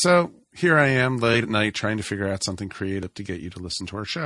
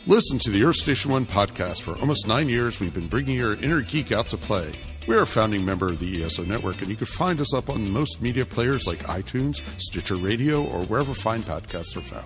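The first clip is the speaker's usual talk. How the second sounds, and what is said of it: Announcer voice. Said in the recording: “I guess I could just use my announcer voice.”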